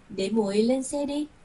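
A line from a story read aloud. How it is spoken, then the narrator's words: Smiling. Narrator (Vietnamese): mỉm cười nói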